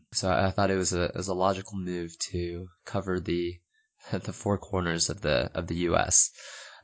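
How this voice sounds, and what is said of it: Voice slightly affected by cold. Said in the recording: “you can probably tell that I have a little bit of a cold right now”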